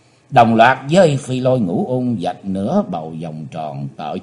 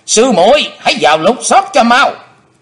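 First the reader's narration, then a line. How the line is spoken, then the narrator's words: Shout. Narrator (Vietnamese): hắn đã quát lên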